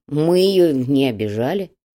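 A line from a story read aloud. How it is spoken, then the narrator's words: Grumbling. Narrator (Russian): проворчал Петруха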